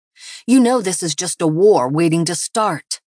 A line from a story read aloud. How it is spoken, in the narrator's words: Tasha growled